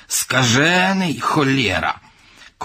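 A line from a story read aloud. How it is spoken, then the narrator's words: Rough-voiced remark. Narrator (Ukrainian): грубим голосом кинути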